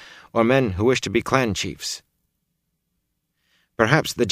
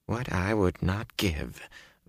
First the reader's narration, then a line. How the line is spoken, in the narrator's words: Varen muttered